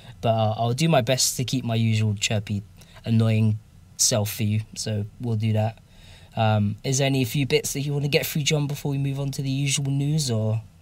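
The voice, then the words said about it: Voice rough from a cold. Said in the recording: “I'm still recovering from a bit of a dodgy cold that I picked up out there. So, my voice isn't the greatest, and I might cough a few times.”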